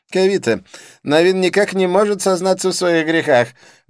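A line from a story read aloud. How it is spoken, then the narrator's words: Loud complaint. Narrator (Russian): громко посетовал Дидье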